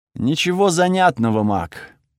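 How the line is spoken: Bored voice. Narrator (Russian): скучным голосом ответил Тихирос

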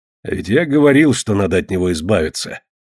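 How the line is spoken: Grumbling. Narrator (Russian): проворчал ворон

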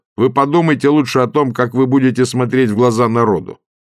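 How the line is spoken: Shouting from audience. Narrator (Russian): Косолапов закричал из зала

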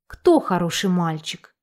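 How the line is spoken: Affectionate question. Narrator (Russian): Ира ласково спросила у собаки

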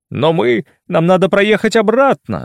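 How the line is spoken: Babbling. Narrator (Russian): залепетал Шурочка

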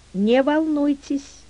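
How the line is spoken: Exclamation. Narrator (Russian): воскликнула Мюриель

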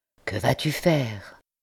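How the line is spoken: Quiet question. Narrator (French): demanda tout bas l'ancien député

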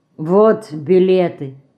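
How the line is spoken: Plain. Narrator (Russian): сказал пан

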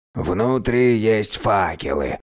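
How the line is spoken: Hoarse reminder. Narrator (Russian): севшим голосом напомнил Типицимон

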